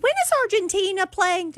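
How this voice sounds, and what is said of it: Imitates coworker with British accent. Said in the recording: “I was trying to do my Audrey ... Spot on ... You Audrey with a British accent ... That's my Audrey ... Yeah, that was good.”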